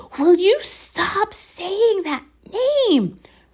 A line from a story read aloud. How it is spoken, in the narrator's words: Ron hissed